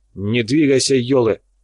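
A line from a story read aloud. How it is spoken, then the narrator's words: Barked command. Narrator (Russian): рявкнул Фрол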